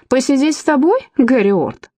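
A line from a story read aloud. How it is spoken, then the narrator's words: Chuckling reply. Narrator (Russian): хохотнул в ответ Дункан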